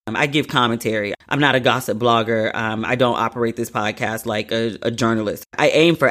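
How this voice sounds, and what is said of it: Usual voice. Nothing is said of it.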